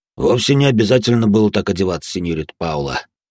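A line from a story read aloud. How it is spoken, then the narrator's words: Amused snort. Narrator (Russian): хмыкнул он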